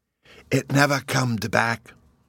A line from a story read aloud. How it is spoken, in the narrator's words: Bruno solemnly whispered to me